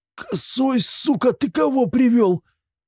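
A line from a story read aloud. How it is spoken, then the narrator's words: Strained hoarse rasp. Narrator (Russian): с трудом прохрипел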